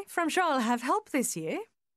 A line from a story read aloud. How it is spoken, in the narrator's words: she added, her voice light and gay